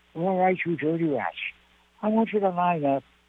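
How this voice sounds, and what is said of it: Imitates another person's voice. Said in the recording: “I was doing an impression of James Cagney in my act”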